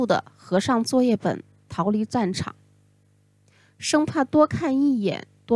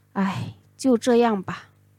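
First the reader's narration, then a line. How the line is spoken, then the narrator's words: Helpless sigh. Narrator (Chinese): 我充满无奈的一声叹息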